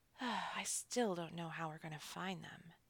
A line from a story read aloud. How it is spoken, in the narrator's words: Hansel sighed